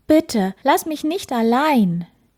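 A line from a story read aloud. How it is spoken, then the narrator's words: Calling out. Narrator (German): Er rief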